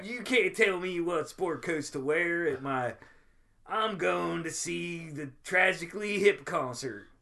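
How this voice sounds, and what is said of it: Mock Canadian redneck accent. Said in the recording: “I can't do Canadian accent ... like just like a hillbilly redneck basically ... Canadian like, hillbilly redneck ... That's how Canadian rednecks talk.”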